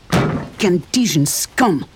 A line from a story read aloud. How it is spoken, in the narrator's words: he snarled